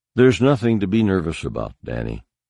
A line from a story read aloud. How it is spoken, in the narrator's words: said, looking calmly and evenly